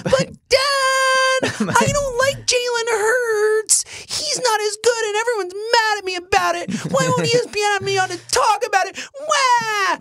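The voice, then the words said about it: Whiny baby-like impression of Chris Sims. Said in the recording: “he does sound like a baby ... he sounds like Zoe when she's whining at me ... That's what Chris Sims sounds like to me ... that might be the best impersonation of someone I've ever done”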